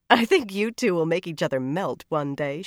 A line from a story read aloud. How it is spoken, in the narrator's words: she said, laughing